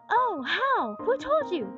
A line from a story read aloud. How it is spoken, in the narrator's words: cried Joel eagerly